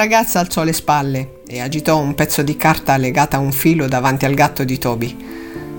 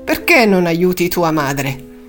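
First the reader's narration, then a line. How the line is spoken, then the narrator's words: Grumbling. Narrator (Italian): Hilde brontolando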